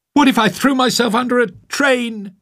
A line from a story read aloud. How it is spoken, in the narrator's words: yelled back